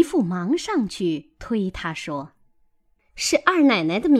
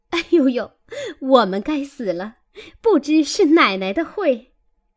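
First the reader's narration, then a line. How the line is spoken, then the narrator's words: Hurried laughing voice. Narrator (Chinese): 女仙儿忙笑着说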